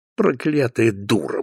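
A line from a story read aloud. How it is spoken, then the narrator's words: Grumbling mutter. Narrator (Russian): буркнул Теклтон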